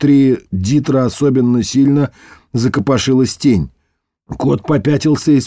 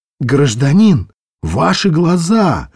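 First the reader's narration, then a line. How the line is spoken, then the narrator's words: Exclaimed. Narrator (Russian): воскликнул Ребус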